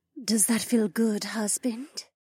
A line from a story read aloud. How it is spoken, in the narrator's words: She purred in her sultry voice